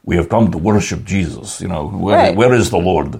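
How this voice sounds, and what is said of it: Heavy, thick Turkish-style accent. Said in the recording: “impersonation of my next door neighbor who's from Turkey ... It's not even close ... they don't sound the same ... it's kind of just heavy, thick”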